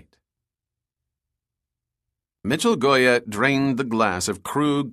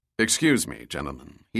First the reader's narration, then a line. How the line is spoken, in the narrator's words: said in a deep voice